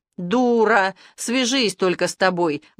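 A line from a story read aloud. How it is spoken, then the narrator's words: Howling. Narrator (Russian): взвыл человек в темном плаще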